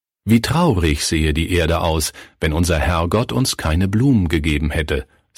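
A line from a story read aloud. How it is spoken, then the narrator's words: Plain. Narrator (German): sagte sie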